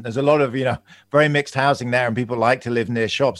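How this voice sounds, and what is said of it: London accent. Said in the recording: “I'm from London. You can probably hear my accent.”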